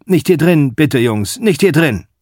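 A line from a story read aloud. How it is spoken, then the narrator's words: Old man calling repeatedly. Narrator (German): Der alte Bank ruft immerzu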